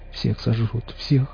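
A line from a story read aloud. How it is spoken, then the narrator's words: Ragged man muttering. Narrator (Russian): бормотал оборванец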